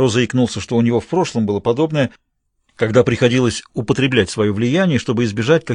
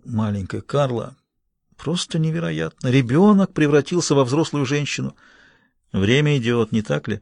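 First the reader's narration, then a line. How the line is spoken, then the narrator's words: Whisper. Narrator (Russian): Мередит Блейк прошептал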